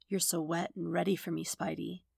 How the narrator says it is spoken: whispers

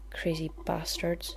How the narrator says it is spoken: the guard muttered

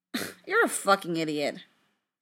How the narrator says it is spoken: Frank scoffed

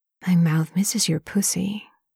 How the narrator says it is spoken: Lanchen whispers

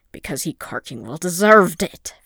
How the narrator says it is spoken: Fëanor replied, and was a little disturbed at how much of a snarl was in his voice

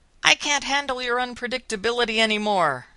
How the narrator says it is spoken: yells

